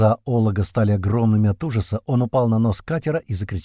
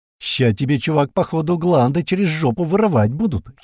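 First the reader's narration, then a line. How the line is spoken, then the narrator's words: Giggled. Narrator (Russian): хихикнул Адван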